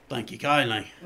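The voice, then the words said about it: Rough put-on Australian accent. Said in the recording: “Is that an Australian accent? ... Sort of.”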